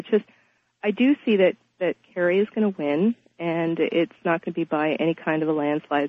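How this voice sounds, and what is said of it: Congested, stuffy voice. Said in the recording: “sorry, I have a cold.”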